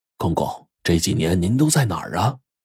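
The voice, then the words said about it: Quiet, hushed questioning voice. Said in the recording (Chinese): “小声的就问”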